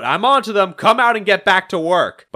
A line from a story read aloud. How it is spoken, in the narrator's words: he shouts out